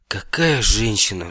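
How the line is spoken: Admiring sigh. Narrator (Russian): вздохнул Невилл

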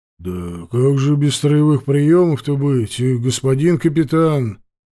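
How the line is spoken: Displeased grumble. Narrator (Russian): проворчал недовольно подпоручик

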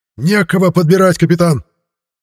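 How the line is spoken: Shouted out. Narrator (Russian): выкрикнул Шнивенд

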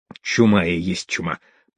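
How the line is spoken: Groggy mutter. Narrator (Russian): пробормотал приходящий в себя мужик

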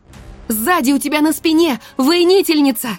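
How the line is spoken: Shout. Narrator (Russian): крикнула я дракону

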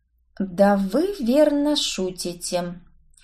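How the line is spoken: Quiet. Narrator (Russian): тихо произнесла я

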